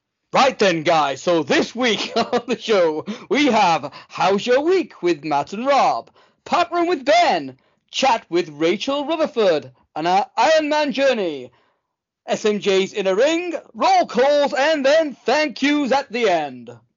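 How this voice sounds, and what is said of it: Put-on posh RP English accent. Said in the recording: “in your clearest, best RP accent ... that wasn't as shit as you usually do it”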